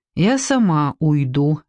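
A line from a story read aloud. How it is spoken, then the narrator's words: Gloomy. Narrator (Russian): мрачно сказала Эстер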